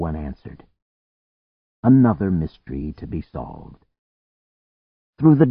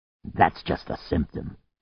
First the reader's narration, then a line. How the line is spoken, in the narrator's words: the sitting man snarled